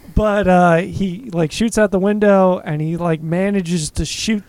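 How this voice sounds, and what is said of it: Usual voice. Nothing is said of it.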